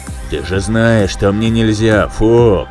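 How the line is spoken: Deep bass voice. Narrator (Russian): пробасил Айра

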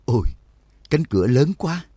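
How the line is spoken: Sighing exclamation. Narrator (Vietnamese): Đường Mẫn thở dài thốt lên

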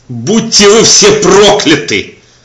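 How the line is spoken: Screaming. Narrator (Russian): завопил я напоследок

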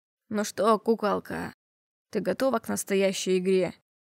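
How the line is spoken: Man's guttural growl. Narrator (Russian): Утробно зарычал мужчина

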